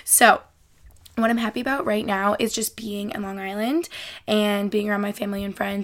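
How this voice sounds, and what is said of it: Breathless, out-of-breath speaking. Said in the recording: “why do I feel like I'm running out of breath? ... I just feel like I really needed to breathe for a sec.”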